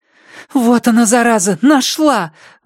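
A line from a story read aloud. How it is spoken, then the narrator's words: Overly loud exclamation. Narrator (Russian): воскликнула Андреа громче, чем нужно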